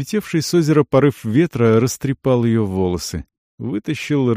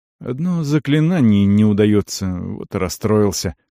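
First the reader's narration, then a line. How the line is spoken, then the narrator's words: Soft. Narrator (Russian): сказал он мягко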